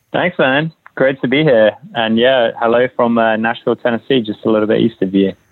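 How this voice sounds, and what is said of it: English accent. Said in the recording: “you might have detected the English accent, which is where I originally hail from”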